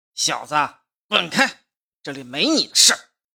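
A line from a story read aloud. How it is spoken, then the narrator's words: Through gritted teeth. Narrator (Chinese): 咬牙切齿说道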